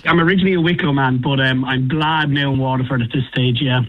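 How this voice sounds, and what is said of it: Irish accent. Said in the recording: “such an Irish way to reply ... I was right with your accent, haven't I? You're from Waterford?”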